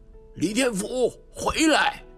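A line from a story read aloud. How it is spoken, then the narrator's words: Shout. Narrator (Chinese): 学校的主任喊着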